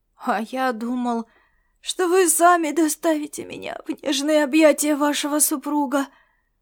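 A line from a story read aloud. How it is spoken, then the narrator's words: Sleepy reply. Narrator (Russian): Сонно отозвался Ласло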